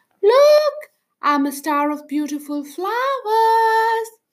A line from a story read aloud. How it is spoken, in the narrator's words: shouted